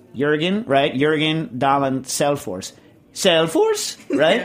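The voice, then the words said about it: Imitated Norwegian accent. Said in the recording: “Swedish Nils's imitation of a Norwegian accent. So now I have to say this name in my imitation of Nils doing a Norwegian”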